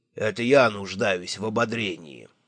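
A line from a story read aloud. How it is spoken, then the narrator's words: Gloomy. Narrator (Russian): мрачно сказал он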